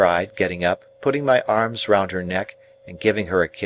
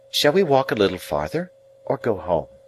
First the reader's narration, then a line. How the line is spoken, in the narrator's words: with a quiet sigh for me, Biddy rose from the bank, and said, with a fresh and pleasant change of voice